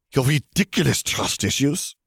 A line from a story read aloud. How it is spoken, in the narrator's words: she snapped